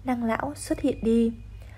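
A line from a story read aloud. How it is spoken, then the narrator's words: Smiling speech. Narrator (Vietnamese): Nàng mỉm cười nói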